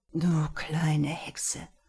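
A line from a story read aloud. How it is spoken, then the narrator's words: Groaned. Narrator (German): stöhnte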